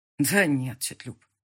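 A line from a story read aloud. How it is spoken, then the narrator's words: Sighed. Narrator (Russian): вздохнул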